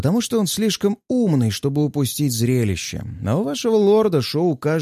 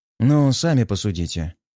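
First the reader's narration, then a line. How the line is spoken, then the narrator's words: Calm, unpretentious. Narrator (Russian): спокойно, без пафоса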